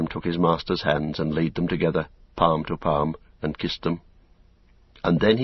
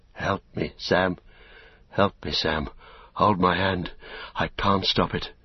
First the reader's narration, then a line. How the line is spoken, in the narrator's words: Faint, almost inaudibly, he heard Frodo whispering